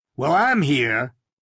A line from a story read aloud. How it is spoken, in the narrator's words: he said gruffly